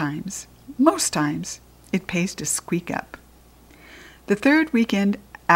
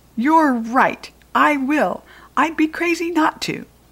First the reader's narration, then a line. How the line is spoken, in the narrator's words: shouted